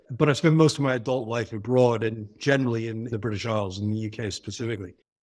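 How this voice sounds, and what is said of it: American New York accent. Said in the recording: “You hear from my accent, I'm American from New York, the New York area.”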